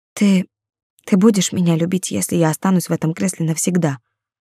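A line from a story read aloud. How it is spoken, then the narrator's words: Very quiet, tearful question. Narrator (Russian): спросила очень тихо, со слезами на глазах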